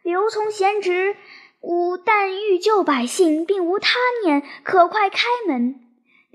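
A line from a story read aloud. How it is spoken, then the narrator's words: Loud shout. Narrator (Chinese): 玄德大叫曰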